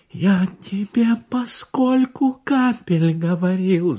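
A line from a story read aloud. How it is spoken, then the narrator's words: Strangled small voice. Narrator (Russian): задушенным голоском заговорил я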